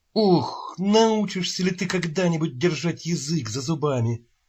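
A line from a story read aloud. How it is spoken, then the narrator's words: Groan into ear. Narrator (Russian): простонал Чарли Бостон в ухо Квейда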